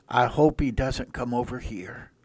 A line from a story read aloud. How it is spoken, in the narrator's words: The professor whispered to his wife